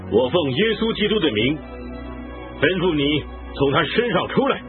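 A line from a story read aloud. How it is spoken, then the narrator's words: Annoyed command. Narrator (Chinese): 保罗就心中厌烦，转身对那鬼说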